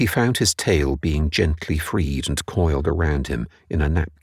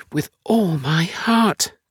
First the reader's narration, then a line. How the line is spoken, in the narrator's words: cried Jerry